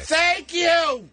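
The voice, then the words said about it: Yelling loudly. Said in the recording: “Why are you yelling?”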